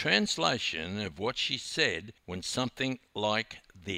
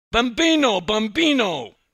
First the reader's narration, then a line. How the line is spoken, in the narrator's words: yelling in fractured Italian